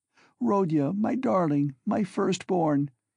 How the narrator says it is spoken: she said, sobbing

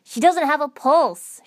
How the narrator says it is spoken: Shikamaru shouted

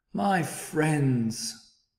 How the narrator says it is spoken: cried the elephant

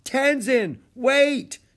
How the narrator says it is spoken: Jack shouted

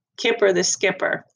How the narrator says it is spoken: I said

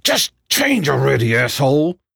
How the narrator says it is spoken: shouted

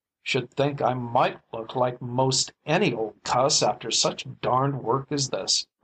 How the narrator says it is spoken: growled David

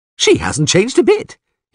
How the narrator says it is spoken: he said cheerfully

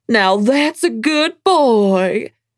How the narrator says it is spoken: cooed

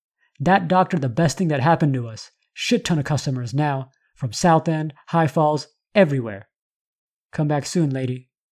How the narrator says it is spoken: the 16-year-old yelled out

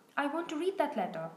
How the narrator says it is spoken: said loudly

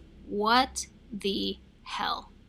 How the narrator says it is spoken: she slowly responded in disbelief

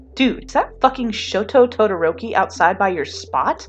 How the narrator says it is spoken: Kaminari squeaks

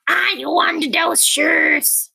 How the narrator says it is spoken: she hissed

